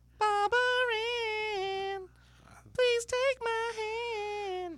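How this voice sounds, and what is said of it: Sung in falsetto. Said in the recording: “You really have kind of a falsetto.”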